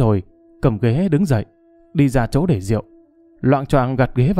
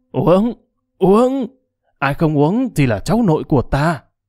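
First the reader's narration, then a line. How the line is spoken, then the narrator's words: Drunken shouting. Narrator (Vietnamese): Cốc Trần, vẻ say xỉn, hét lớn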